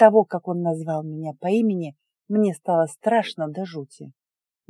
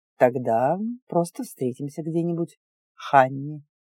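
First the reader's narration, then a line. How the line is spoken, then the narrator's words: Purring. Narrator (Russian): промурлыкал принц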